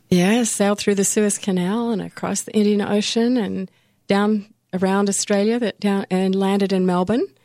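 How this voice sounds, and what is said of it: Slight mixed international accent. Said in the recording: “you have a bit of an accent ... I'm sort of an international character.”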